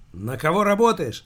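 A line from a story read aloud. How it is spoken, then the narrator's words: Shouted question. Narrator (Russian): выкрикнул спецагент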